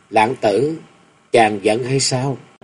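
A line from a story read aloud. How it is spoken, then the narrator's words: Gentle tender voice. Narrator (Vietnamese): Thập Lý Hương dịu dàng nói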